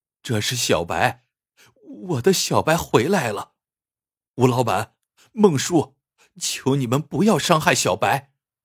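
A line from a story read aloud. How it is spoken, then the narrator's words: Trembling voice. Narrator (Chinese): 阿毛颤声说道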